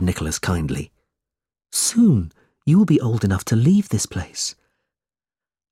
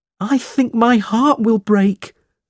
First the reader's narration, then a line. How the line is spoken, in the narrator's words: cried Smike